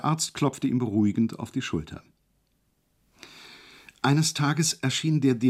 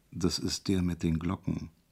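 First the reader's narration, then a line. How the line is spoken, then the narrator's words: Discreet whisper. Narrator (German): flüsterte ihm der Arzt unauffällig zu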